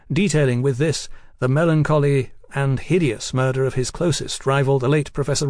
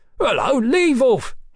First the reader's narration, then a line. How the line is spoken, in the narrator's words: he cried